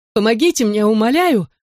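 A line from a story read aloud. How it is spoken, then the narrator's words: Shout. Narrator (Russian): крикнула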